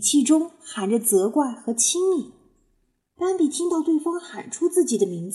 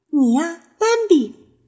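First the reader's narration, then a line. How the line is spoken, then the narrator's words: Blurted shout. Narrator (Chinese): 那位脱口喊道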